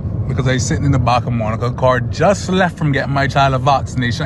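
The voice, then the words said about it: Broad Caymanian dialect. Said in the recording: “Let's hear a proper Caymanian dialect ... This proper Caymanian.”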